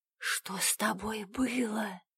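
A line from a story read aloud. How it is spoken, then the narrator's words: Whispered question. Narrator (Russian): шепотом спрашиваю я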